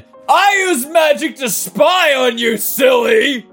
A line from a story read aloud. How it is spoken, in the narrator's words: said Hermione, laughing